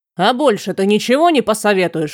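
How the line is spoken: Snapping retort. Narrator (Russian): огрызнулся граф

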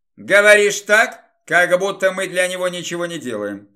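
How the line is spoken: Muttering grumble. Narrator (Russian): пробурчал упомянутый Гомер

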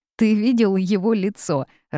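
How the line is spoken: Girl laughing loudly. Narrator (Russian): расхохоталась девушка

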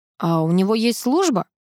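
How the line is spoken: Colonel snorting. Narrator (Russian): хмыкнул полковник

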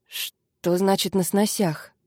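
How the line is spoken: Muttered. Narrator (Russian): буркнул Люсьен

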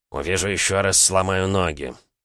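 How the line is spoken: Mock-threatening grumble. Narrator (Russian): беззлобно проворчал, дабы припугнуть

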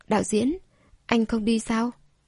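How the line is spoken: Soft shy question. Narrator (Vietnamese): Cô cũng ngại, khẽ hỏi

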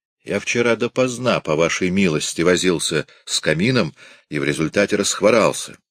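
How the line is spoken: Plain. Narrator (Russian): сказал он ей

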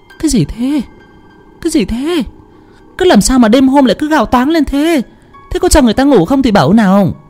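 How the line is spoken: Startled, flustered questioning. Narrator (Vietnamese): mụ vợ hoảng hồn bật dậy, còn chưa kịp hiểu đầu đua tai nheo ra làm sao đã hỏi

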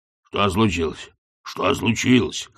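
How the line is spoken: Hoarse repeating. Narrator (Russian): хрипло повторял

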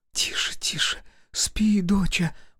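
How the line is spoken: Frightened whisper. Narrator (Russian): прошептала мать с некоторым испугом

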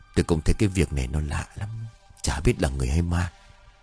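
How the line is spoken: Low voice, musing to himself. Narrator (Vietnamese): ông bá hạ giọng nói như tự hỏi

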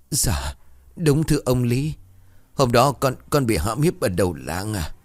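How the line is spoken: Trembling. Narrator (Vietnamese): Thư cả người run rẩy

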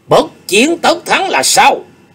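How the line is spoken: Raised voice, asking. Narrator (Vietnamese): Chu Nguyên Chương cất cao giọng hỏi

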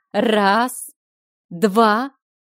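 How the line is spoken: Slow. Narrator (Russian): медленно начинала

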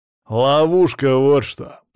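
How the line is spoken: Growled. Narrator (Russian): прорычал Даня

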